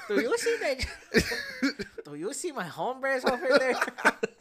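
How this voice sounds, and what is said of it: Cholo accent in high-pitched girl voice. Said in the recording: “What's that accent? ... Why is she Cholo? ... that type of accent over top of like a high-pitched girl voice”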